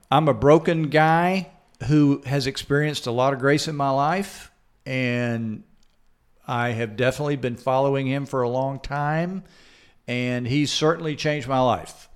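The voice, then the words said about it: Slight Southern American accent. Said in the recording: “You might hear a bit of a Southern accent.”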